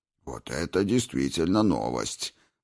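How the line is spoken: Muttered. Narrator (Russian): пробормотал Двалин

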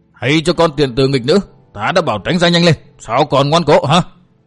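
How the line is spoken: Impatient loud shouting. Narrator (Vietnamese): Lão đại ma đầu sốt ruột hét toáng lên

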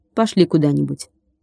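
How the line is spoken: Quick speech. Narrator (Russian): Ника быстро сказала

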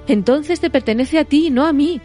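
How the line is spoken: Flustered exclamation. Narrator (Spanish): exclamó Frodo azorado

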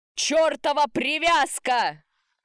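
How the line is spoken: Loud yell. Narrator (Russian): заорал на весь лес

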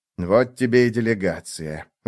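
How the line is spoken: Sighing tick. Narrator (Russian): вздохнул клещик

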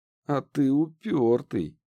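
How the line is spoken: Mocking admiration. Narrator (Russian): Издевательским тоном восхитилась Лидия

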